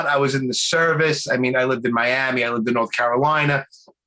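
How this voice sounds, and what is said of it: Strong Brooklyn accent. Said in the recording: “born and raised in Brooklyn ... You can't tell by my accent, though ... some people say I have it bad ... you have it really bad”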